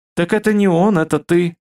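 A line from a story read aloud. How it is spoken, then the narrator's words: Glum sigh. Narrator (Russian): невесело вздохнул Шарик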